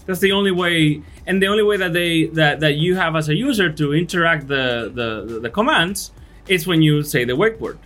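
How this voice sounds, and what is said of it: Thick accent. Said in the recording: “I have a thick accent”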